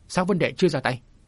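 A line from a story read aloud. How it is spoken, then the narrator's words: Astonished raised voice. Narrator (Vietnamese): Trúc Linh Cô hết sức kinh ngạc, liền cất cao giọng nói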